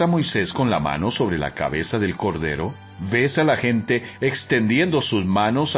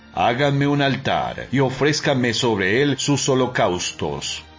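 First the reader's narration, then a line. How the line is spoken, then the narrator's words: Thunderous voice. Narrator (Spanish): con voz de trueno, también dijo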